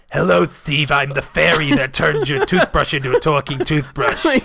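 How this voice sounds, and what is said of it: Character voice of a talking toothbrush. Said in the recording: “You sound just like my toothbrush.”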